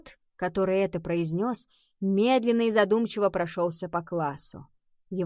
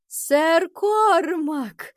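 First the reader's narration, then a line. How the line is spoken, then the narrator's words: Joyful exclamation. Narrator (Russian): радостно воскликнул он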